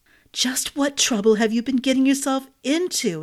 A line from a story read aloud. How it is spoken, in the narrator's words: Hazel gasped